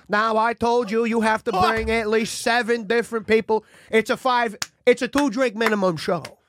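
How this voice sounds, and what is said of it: Imitates another person's voice. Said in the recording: “you sound really different ... is that Denzel Washington? ... that impression sucked, and now it's actually there.”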